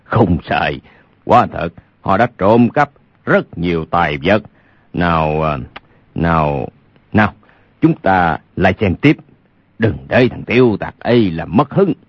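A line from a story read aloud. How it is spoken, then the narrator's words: Loud laughing. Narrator (Vietnamese): Lục Trang Chủ khà khà cười lớn nói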